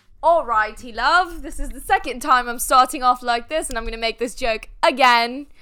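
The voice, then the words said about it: Bad put-on British accent. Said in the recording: “talk in a terrible British accent”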